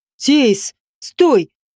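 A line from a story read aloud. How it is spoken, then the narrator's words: Barking. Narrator (Russian): рявкнул Дишаролеш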